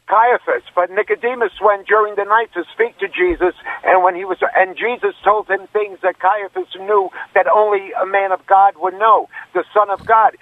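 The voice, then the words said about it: New York accent. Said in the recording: “You're originally from New York. I can hear it in your accent.”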